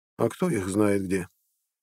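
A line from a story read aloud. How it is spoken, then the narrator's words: Serious, light sigh. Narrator (Russian): посерьезнела Устра и легонько вздохнула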